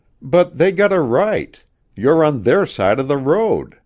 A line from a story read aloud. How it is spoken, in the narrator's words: she exclaimed